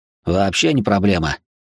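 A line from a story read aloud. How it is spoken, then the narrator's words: Snort. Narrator (Russian): фыркнул Макс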